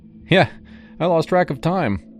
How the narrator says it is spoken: I admitted, laughing it off

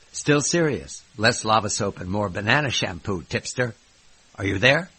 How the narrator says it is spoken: I grunted again

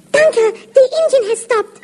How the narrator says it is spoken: Jacker cried

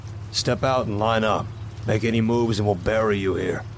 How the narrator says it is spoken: The gunman said gruffly

